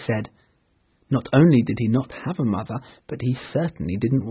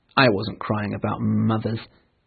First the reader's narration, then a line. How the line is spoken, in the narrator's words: he said rather angrily